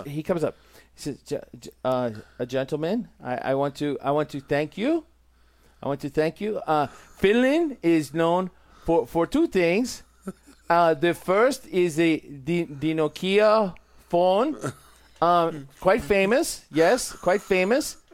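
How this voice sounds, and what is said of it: Impression of a Finnish man. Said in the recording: “do my impersonation of him ... you're not doing him justice”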